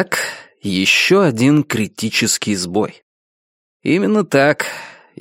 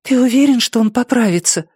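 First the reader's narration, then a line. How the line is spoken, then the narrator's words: Anxious whisper. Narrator (Russian): встревоженным шепотом спросила Амена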